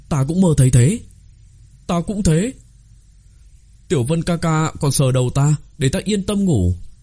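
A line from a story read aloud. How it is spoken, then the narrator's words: Astonished clamoring little foxes. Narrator (Vietnamese): Đám tiểu hồ ly kinh ngạc nhao nhao kêu lên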